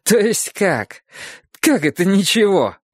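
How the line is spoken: Laughing. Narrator (Russian): рассмеялся король

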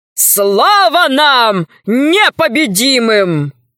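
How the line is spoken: Shouting. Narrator (Russian): закричал он

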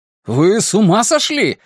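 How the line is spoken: Shouted. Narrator (Russian): закричал он

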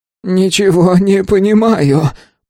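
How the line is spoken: Groaned. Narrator (Russian): простонал Стин

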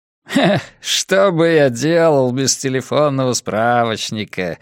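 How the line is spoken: Laughing. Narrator (Russian): засмеялся Моуди

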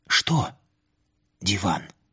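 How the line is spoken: Whispered question. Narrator (Russian): спросил я почему-то шепотом

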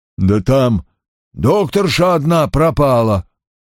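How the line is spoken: Forced out reluctantly. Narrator (Russian): выдавил Даутвейт

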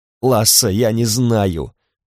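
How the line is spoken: Tearful muffled woman. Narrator (Russian): плачущим голосом отозвалась женщина из-за стены

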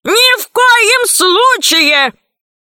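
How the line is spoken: Shouted. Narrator (Russian): закричал Громозека

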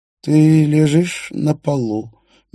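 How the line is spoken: Slow, calm voice. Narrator (Russian): медленно, спокойным голосом говорил Столь

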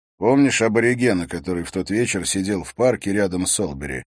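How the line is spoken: Plain. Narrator (Russian): спросил Харри

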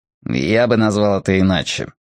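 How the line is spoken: Proud snort. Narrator (Russian): хмыкнул Дивейн с ноткой гордости

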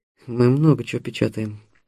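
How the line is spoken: Muttered. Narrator (Russian): пробормотал Стас

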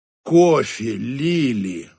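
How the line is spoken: Sigh. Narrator (Russian): вздохнул Чарли

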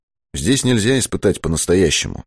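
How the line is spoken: Mutter. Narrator (Russian): пробормотал Быков

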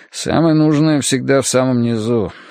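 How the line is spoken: Grumbled. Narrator (Russian): буркнул он

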